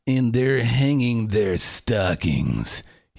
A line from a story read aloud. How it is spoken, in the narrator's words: he snarled with a sneer